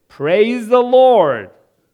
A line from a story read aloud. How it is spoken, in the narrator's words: She was known to, for the benefit of her atheist neighbor, shout